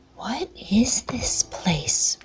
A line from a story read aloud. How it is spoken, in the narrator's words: whispered Jeff